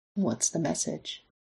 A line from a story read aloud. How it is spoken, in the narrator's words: he asks softly